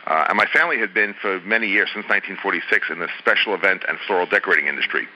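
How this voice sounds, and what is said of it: New York accent. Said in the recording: “back in New York, so you can tell by the accent I'm not a native of Los Angeles”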